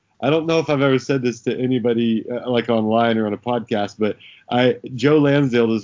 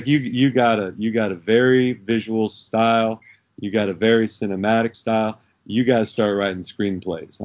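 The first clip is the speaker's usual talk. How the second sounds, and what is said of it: Imitated East Texas accent. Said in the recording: “I can't do his voice very well because he's got that East Texas accent.”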